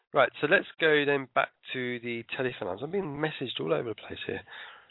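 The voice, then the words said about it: Rough voice from a cold. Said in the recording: “I'm still getting over my cold, so you can hear in my voice is a little bit rough.”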